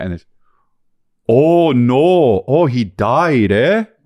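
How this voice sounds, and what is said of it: Put-on Minnesota accent. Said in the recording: “from Fargo ... It's just a guy from Minnesota”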